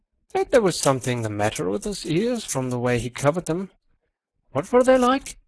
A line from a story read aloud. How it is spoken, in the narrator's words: he said deliberately, with a certain accentuation of his flavoring of lisp